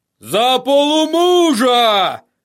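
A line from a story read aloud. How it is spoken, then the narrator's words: Shouting. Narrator (Russian): закричал он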